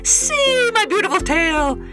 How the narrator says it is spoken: Everyone shouted

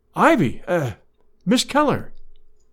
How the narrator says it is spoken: he exclaimed

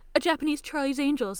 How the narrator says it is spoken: Uo cries

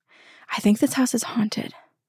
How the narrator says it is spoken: said quietly

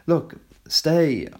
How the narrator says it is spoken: pleaded

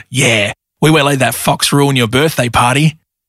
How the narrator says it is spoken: Rocky the Rottweiler growled

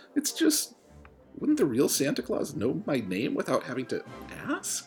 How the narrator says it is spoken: Aaron asked, his voice sheepish

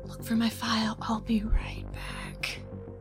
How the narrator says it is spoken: I whisper to Roja

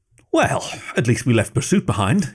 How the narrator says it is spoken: he said, laughing in the same barely constrained hysterical relief that Becca was feeling

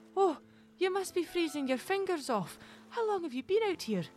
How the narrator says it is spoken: Mary exclaimed

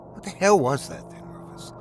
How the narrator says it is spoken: Togs asks quietly

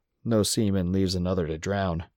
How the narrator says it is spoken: Squinty just grunted

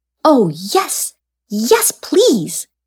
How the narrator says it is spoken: squealed Anoia

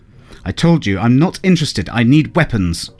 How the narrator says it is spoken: she snapped

